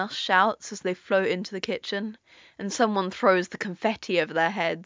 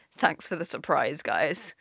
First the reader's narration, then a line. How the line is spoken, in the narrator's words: Tim says dryly